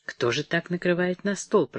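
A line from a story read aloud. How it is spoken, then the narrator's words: Disdainful muttering. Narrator (Russian): пробормотала она пренебрежительно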